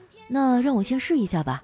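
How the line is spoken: Flat, indifferent. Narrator (Chinese): 只淡淡的说了一句

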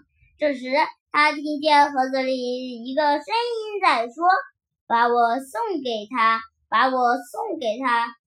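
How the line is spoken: Smiling, cheerful. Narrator (Chinese): 松鼠笑眯眯地说

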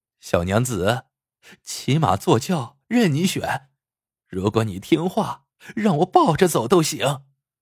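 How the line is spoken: Leering, joking. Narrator (Chinese): 徐豹嬉皮笑脸的说

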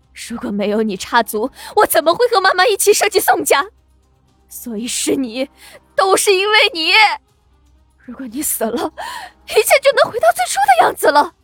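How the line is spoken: Hoarse, agitated screaming. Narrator (Chinese): 温林整个人都激动起来，嘶声吼叫着

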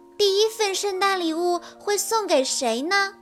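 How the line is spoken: Plain. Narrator (Chinese): 列车长答道

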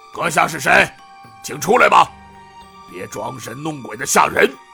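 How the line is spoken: Loud shout. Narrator (Chinese): 七郎中的老大又大声喊道

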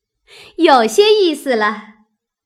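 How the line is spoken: Two voices laughing. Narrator (Chinese): 黛玉、湘云都笑道

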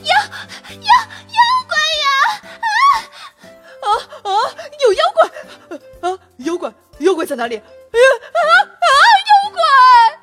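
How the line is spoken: Panicked crowd shouting. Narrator (Chinese): 居民们突然集体逃跑，边跑边喊

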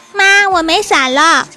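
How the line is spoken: Little girl shouting. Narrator (Chinese): 小萝莉 对服务员大喊

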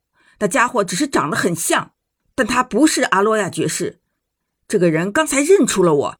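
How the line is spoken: Roar. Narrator (Chinese): 我大吼道

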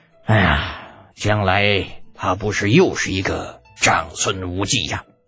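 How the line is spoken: Long emotional sigh. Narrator (Chinese): 感慨的长叹一声

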